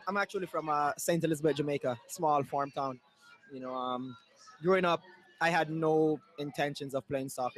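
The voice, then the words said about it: Slight foreign accent. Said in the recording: “you also have a smidge of an accent.”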